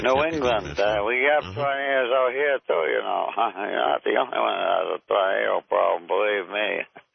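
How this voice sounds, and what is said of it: Noticeable regional New England accent. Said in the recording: “I hear the accent ... The accent is unavoidable”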